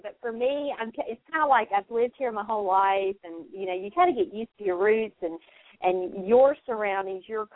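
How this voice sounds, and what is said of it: Southern US (North Carolina) accent. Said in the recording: “I'm a Southern girl. I grew up in North Carolina, in case you couldn't tell by my accent”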